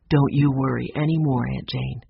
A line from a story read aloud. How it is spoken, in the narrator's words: he said in a loving voice